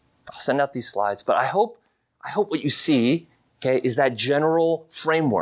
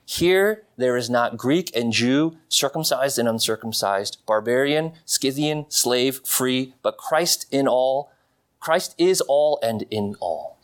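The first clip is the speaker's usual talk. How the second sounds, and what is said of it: Reading aloud quickly. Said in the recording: “I read that quickly.”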